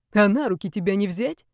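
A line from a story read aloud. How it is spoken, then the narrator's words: Nervous snort. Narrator (Russian): фыркнула нервничающая Настя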